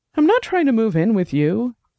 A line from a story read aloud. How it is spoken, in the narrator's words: Dex said, his voice rising now